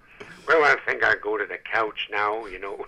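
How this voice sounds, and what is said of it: Lazy, laid-back crooner impression. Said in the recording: “So I thought of Dean Martin. You know, he's that kind of guy... kind of a lazy kind of guy”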